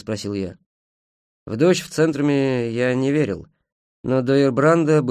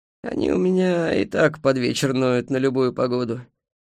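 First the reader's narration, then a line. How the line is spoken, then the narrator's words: Old man sighing. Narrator (Russian): старик вздохнул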